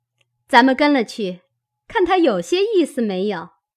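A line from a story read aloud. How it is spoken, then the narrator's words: Laughing. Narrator (Chinese): 探春笑道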